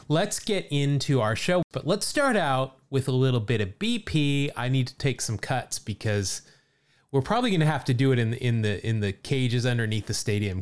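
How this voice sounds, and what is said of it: Slightly raspy, hoarse voice. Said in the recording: “We both are a little bit raspy uh, this week”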